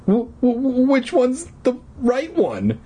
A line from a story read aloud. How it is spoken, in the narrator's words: He stammered